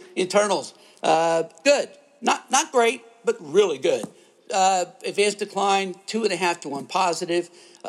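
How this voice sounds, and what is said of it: Strained, hoarse, fading voice. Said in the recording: “I'm losing my voice”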